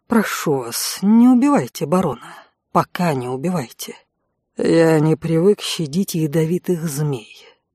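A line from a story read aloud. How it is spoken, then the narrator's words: Cold, through gritted teeth. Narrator (Russian): холодно процедил конт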